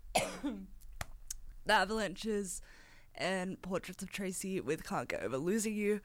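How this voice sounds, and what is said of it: Hoarse, croaky throat. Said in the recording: “I've got a frog in my throat ... I'm so sorry for my voice right now”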